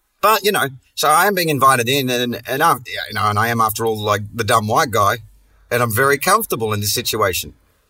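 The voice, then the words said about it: Strong Australian accent. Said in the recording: “my accent gets strong ... It gets fucking strong ... I turn up my outback out there”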